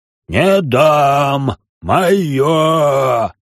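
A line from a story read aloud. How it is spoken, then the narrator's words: Roar. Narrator (Russian): взревел Дартун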